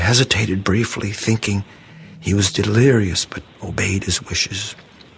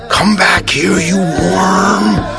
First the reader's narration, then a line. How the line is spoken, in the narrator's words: growled like a banshee